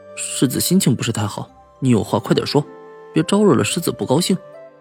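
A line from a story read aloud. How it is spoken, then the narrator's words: Carefully lowered voice. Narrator (Chinese): 小心的压低了声音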